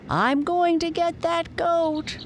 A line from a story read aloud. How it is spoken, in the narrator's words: cried the boy who had first seen Lightfoot